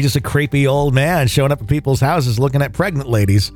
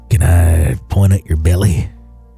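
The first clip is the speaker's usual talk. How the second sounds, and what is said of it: Creepy put-on Southern accent. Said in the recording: “the southern accent that I put on it ... it's the creepy accent ... It's southern creepy.”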